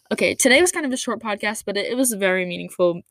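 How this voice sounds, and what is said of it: Slightly raspy voice. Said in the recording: “my voice is kind of raspy”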